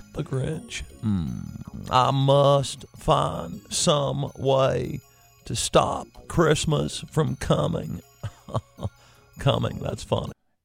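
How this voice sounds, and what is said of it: Bill Clinton impression. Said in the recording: “He does a Bill Clinton impression.”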